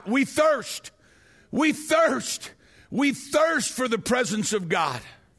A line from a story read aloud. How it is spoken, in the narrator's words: the people would begin to shout